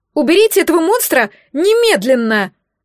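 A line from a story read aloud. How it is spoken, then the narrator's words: Shrill shriek. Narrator (Russian): Взвизгнула Ифигения Моргот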